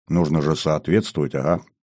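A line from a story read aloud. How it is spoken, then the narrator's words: Short mutter. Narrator (Russian): коротко буркнул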